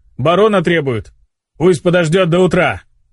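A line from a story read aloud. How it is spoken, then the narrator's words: Irritated barking. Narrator (Russian): раздраженно рявкнул старший смены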